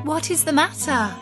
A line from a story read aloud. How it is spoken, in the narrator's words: cried